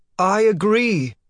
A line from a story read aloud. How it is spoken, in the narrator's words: the author shouted